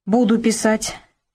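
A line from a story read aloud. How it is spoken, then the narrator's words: Sharp reply. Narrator (Russian): также резко ответил Сергей Андреевич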